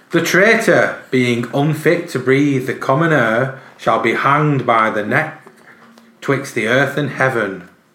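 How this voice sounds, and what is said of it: Put-on old-fashioned nobleman accent. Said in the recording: “I'm doing my best accent. ... Where's this nobleman from ... Good accent”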